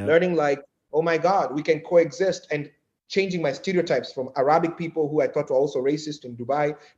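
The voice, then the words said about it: Kenyan accent. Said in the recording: “my accent is a weapon of, you know, the way I come off ... I'm from Kenya, apparently it scares people.”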